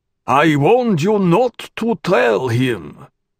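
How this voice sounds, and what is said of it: Grating baritone with unfamiliar accent. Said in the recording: “The voice was a grating baritone with an accent new to Teg.”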